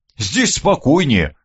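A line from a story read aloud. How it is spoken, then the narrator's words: Snort. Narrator (Russian): хмыкнул Леонид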